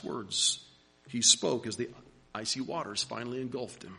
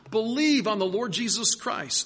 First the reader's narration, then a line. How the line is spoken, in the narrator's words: Harper shouted one more time